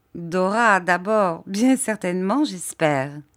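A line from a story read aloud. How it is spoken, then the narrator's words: Laughing. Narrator (French): dit Agnès en riant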